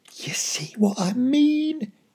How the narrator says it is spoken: he whispered

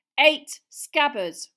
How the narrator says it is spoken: Ron interjected angrily

